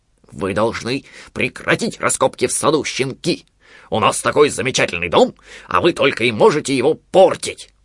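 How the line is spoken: Growling. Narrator (Russian): прорычал Понго

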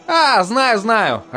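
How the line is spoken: Laughing. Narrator (Russian): рассмеялся баннерник

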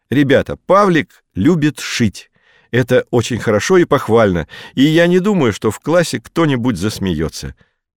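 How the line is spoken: Loud teacher's voice. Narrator (Russian): Учительница громко сказала

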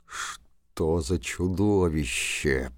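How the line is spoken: Sergeant grumbling. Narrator (Russian): проворчал старшина

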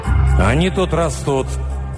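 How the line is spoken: Strained growl. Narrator (Russian): прорычал натянуто Руго

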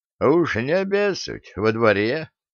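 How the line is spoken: Snorting. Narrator (Russian): хмыкнул ключник

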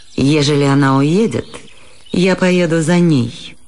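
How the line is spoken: Rough, Italian-accented voice. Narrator (Russian): грубо проговорил голос с итальянским акцентом

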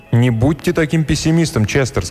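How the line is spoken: Plain. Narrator (Russian): сказала она

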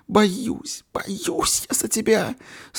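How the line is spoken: Sobbing. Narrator (Russian): Среди рыданий говорила она

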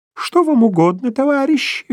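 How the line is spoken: Polite cooing falsetto. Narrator (Russian): вежливо проворковал он фальцетом

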